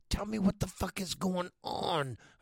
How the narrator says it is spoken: I whispered forcefully

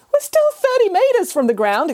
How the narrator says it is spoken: exclaimed the cat

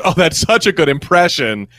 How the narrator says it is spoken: employee laughs and goes

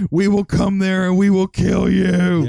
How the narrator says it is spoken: again screamed

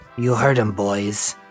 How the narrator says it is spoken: snarled

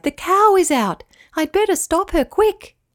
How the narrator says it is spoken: cried

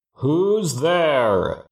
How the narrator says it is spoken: A huge voice boomed through the temple

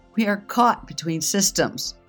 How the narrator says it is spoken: bellowed

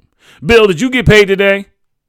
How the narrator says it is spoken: She barked

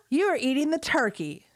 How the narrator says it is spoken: she cried before exploding into a coughing fit

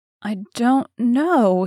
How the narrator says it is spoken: he replied uneasily

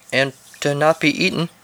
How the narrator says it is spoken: said Tim nervously

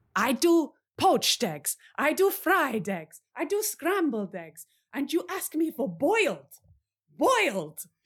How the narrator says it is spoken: a voice as a big dinosaur bursts out of the kitchen screaming

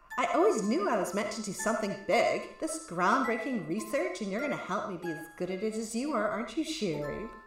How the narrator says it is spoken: Indira purrs

